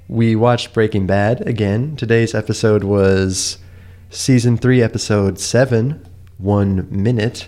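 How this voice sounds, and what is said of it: Sick, slightly strange-sounding voice. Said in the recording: “I've come down with a little illness. I'm a little sick today. And so I'm sorry if my voice sounds a little strange”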